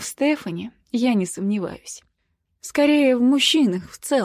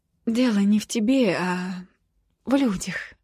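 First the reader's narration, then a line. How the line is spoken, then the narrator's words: Uncertain. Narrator (Russian): неуверенно говорю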